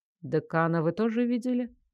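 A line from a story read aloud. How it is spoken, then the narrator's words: Calm question. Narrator (Russian): спокойно уточнил Фарлей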